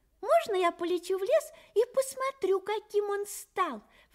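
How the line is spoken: Exclamation. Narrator (Russian): воскликнул Чивик

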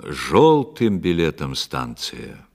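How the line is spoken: Conductor's loud announcement. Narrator (Russian): кондуктор громко возглашал на весь вагон

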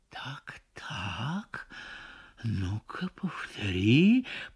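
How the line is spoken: Very quiet. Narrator (Russian): произносит он, но так тихо

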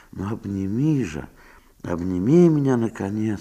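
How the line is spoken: Whispering. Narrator (Russian): шептала она

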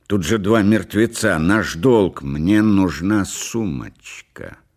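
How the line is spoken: Stubborn and angry. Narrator (Russian): сказала Делла упрямо и зло

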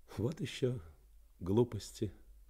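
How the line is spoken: Muttered. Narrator (Russian): пробормотала

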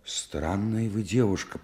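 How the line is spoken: Muttering. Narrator (Russian): пробормотал Стремухов

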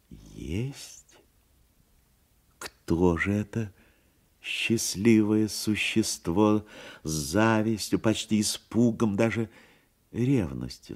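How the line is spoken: Plain. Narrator (Russian): спросил он

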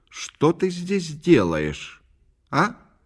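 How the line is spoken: Loud, meant to be overheard. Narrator (Russian): Катя сказала громко, как будто нарочно, чтобы ее кто-нибудь услышал

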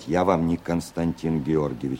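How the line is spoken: Quietly through gritted teeth. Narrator (Russian): сквозь зубы негромко произнес Цветков

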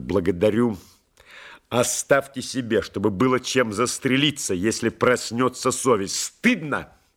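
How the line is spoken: Sharp rebuke. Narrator (Russian): Резко одернул полковник

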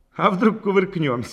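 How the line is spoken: Cheerful suggestion. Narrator (Russian): весело предположил Петельников

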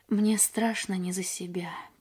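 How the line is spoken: Sad. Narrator (Russian): печально сказал он

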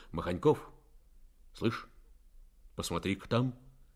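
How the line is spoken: Quiet call. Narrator (Russian): негромко окликнул

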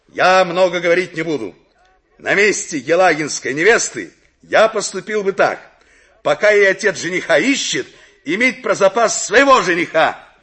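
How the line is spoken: Loud. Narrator (Russian): громко сказал

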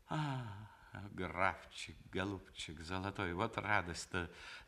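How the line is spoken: Through teeth, cheerful. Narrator (Russian): заговорила она сквозь зубы с веселой улыбкой

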